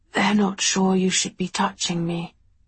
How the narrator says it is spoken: he whispered

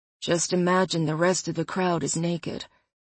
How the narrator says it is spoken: Connor murmured behind me

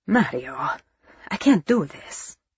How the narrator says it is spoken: Angelo said softly

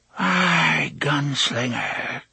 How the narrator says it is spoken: she breathed

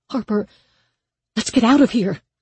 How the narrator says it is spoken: Danny said urgently beside her

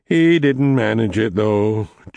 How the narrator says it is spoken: Jake said mournfully

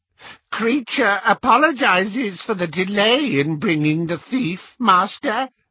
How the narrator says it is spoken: croaked the elf

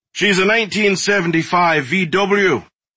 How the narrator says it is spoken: Wainwright said, his voice booming from the driver's seat

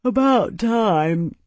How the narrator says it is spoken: Tiberius replied, yawning

